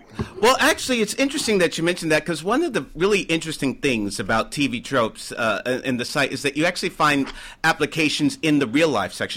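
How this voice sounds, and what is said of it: American accent. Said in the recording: “as you can tell, I'm American by my accent.”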